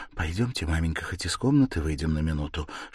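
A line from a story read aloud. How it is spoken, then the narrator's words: Frightened whisper. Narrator (Russian): шепнула испуганная Дуня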